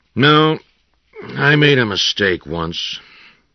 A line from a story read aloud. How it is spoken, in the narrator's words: he said in a flat voice